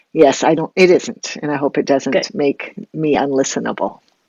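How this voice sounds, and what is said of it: Stuffy, congested voice from a cold. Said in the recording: “I have a little bit of a cold, so I'm a little bit snuffly. ... You sound a little stuffy.”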